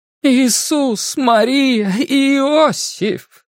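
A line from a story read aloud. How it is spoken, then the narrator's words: Woman's heartfelt exclamation. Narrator (Russian): с чувством воскликнула женщина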